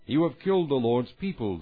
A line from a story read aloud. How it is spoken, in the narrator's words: they said